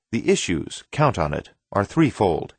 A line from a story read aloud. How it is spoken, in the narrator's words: he said